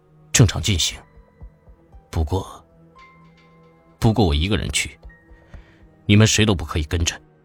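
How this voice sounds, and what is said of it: Low, deep voice. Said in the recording (Chinese): “低沉的声音说”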